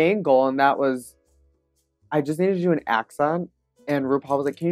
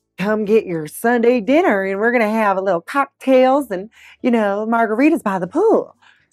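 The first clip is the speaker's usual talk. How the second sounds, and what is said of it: Fairly convincing put-on Southern accent. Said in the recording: “can you do a Southern accent? ... Southern hospitality girl ... So that's a much better accent than you did in that challenge. That was like somewhat convincing.”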